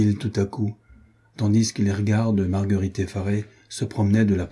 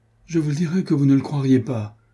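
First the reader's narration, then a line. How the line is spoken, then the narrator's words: Exclamation. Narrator (French): s'écria-t-elle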